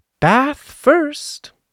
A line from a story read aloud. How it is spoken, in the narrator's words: said Kanga in a cheerful voice